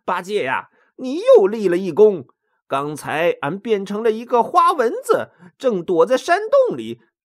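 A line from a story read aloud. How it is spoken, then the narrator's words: Laughing. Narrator (Chinese): 孙悟空拍拍他的大肚皮，笑着说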